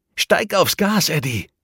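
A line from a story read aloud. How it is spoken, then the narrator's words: Calling out. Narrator (German): rief sie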